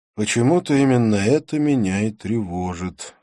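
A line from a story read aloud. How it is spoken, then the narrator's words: Sighing. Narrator (Russian): вздохнул я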